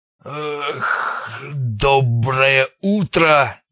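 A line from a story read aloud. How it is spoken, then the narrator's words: Deep bass, just awake. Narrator (Russian): пробасил пробудившийся наконец Снейк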